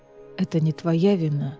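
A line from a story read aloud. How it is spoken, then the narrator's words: Quiet. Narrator (Russian): тихо сказал Кассиан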